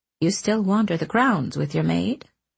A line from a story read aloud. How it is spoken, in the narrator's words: she asked him softly